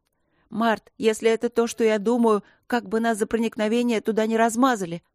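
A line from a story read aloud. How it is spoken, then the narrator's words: Shout into ear. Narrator (Russian): крикнула она ему на ухо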